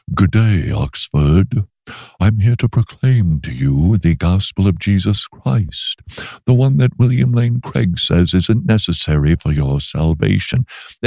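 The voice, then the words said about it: Snooty put-on British accent. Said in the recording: “I spoke as if I were British with a really snooty attitude ... you're aping us? ... you're mimicking us? You're impersonating? ... What are you doing with the accent?”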